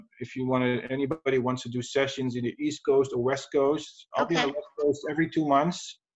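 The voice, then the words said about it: European accent. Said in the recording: “I love your accent. I love European accents. ... So much richer”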